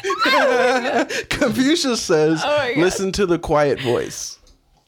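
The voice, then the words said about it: Put-on voice imitating Confucius. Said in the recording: “Confucius says... Oh, racist... Don't do a voice... I thought you said do it racist. Do it racist.”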